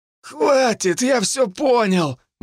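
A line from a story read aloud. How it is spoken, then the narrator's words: Pleading. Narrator (Russian): взмолился потерпевший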